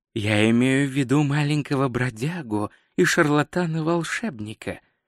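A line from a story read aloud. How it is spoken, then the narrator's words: Soft. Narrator (Russian): мягко сказал Рок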